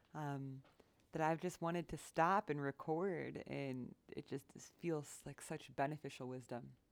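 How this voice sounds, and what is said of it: Slightly raspy voice. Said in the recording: “My voice is a little raspy today.”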